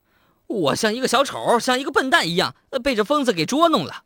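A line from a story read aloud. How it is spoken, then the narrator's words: Loud, breathless with anger. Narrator (Chinese): 记者此时气得气儿都不顺了，大声说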